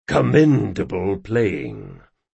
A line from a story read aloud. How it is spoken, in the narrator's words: muttered Chains